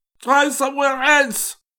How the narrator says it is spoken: cried Moit hoarsely

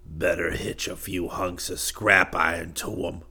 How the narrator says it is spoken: Tony said harshly

